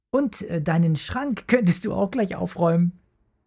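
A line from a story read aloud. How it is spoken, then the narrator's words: Giggle. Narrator (German): kicherte Mara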